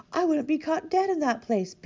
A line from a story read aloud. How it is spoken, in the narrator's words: Big Ewe exclaimed